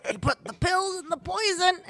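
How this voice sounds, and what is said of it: Imitates another person's voice. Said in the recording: “That was my impression. ... That was a really good.”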